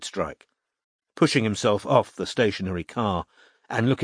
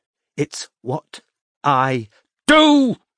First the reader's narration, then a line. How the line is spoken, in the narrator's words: shouted Robin